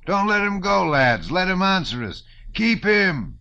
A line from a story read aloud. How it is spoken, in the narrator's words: shouted different voices